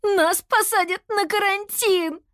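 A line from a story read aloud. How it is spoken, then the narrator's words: Terrified screaming. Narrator (Russian): завопила Кира в ужасе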